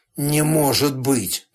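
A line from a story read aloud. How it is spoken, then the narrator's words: Strained, unsure. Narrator (Russian): выдавил без всякой уверенности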